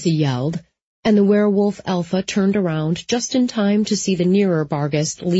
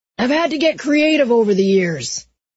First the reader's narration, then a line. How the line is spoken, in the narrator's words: he shouted